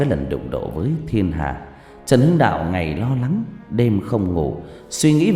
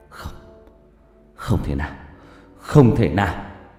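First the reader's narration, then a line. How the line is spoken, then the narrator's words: Stammering in disbelief. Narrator (Vietnamese): Trần Hưng Đạo lắp bắp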